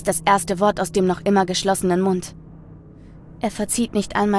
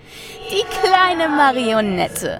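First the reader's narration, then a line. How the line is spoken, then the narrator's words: Malicious laugh. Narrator (German): lacht es boshaft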